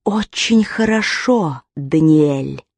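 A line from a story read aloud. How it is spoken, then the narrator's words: Hissing in the ear. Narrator (Russian): прошипел ему на ухо голос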